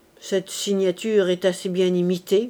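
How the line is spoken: Muttered through teeth. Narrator (French): grommela-t-il entre ses dents

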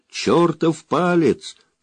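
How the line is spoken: Pilot shouting. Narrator (Russian): прокричал пилот

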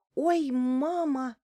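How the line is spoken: Exclaimed. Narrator (Russian): воскликнула Лариса

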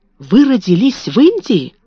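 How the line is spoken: Exclamation. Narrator (Russian): воскликнул он

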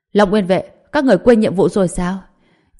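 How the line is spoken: Shouted. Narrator (Vietnamese): Thượng Quả Nhiên quát lên

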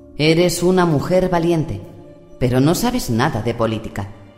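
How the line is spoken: Condescending. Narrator (Spanish): dijo en tono condescendiente

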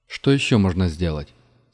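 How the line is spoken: Calm question. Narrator (Russian): спросил Вилга спокойным голосом

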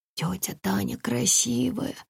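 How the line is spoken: Breathless. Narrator (Russian): выдохнул Саня

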